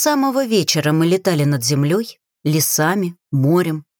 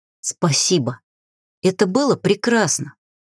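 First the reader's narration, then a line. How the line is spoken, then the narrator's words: Whisper. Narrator (Russian): прошептал маг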